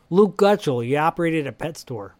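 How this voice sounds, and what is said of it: Put-on Chicago accent. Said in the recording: “Can you do that one for me? ... we know who can do a better Chicago accent than...”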